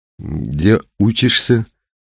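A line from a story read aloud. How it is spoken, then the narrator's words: Strained, forced out. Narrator (Russian): выдавил Виктор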